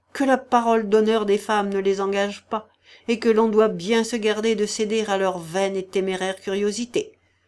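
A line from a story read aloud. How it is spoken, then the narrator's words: Harsh, angry tone. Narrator (French): ajouta-t-il d'un ton dur et courroucé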